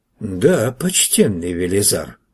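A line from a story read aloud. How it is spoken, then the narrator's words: Sighing witch. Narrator (Russian): вздохнула ведьма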